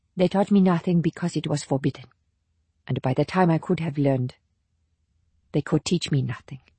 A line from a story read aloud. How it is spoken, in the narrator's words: She said more calmly